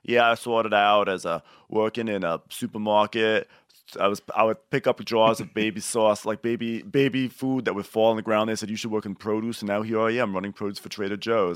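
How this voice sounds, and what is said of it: Thick put-on Boston accent. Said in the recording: “thick Boston accent.”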